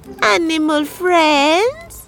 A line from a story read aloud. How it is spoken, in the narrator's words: he called out